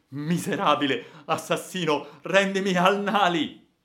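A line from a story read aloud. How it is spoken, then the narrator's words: Shout. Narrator (Italian): grido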